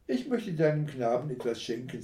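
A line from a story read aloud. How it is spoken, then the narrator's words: Plain. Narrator (German): sagte der Räuber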